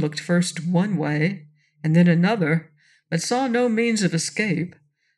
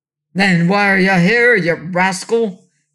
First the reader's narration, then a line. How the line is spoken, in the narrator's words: roared the king